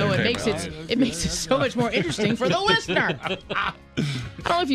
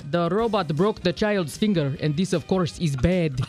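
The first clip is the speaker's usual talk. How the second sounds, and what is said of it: Put-on Russian accent. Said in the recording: “Now she can do a Russian accent.”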